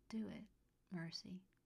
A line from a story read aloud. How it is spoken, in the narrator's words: he whispered